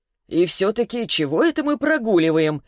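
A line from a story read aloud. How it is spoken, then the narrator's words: Snide question. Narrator (Russian): ехидно спросил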